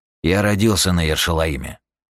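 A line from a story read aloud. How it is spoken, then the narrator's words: Plain. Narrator (Russian): сказал Юджин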